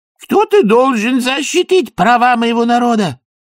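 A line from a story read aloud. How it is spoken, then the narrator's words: Shouted, vizier. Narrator (Russian): крикнул вазир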